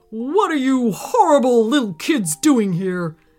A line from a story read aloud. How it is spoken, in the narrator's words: he bellowed from underneath a big, bushy brown mustache